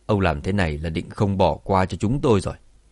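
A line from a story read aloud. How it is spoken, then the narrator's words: Cold question. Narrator (Vietnamese): Lão Cửu lạnh lùng hỏi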